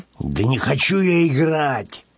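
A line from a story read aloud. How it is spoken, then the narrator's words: Grumbled mutter. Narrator (Russian): Буркнул Петсон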